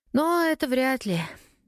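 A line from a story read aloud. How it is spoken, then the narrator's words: Sighing. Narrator (Russian): вздохнула Лена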